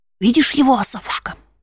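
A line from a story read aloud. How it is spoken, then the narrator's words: Whispering into ear. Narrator (Russian): зашептал он мне прямо в ухо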